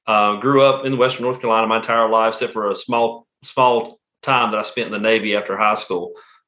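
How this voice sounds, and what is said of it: Southern US accent. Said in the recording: “if you can tell from my accent, I'm from the South. I'm from Western North Carolina.”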